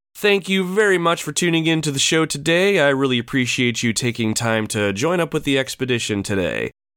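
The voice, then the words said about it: Congested, slightly off voice. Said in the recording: “I sound a little congested, it's because I am a little congested ... I sound a little off today”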